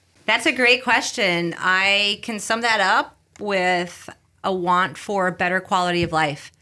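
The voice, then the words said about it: Faint Bronx New York accent. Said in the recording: “you're from the Bronx originally ... I've worked quite a bit on my accent, but a little bit still there.”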